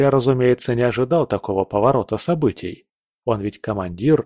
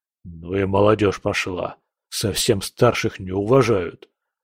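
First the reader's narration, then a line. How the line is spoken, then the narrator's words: Muttering to himself. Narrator (Russian): бормоча себе под нос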